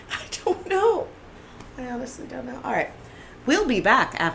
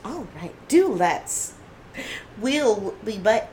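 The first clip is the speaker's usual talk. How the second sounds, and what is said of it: Put-on unidentified accent. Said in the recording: “What the hell was that accent?”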